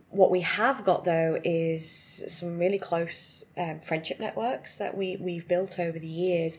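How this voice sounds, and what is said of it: British accent. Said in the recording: “as everyone can probably have noticed from our accents, we're actually from the UK”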